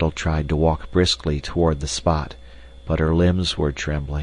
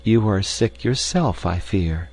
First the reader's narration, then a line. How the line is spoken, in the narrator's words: said kindly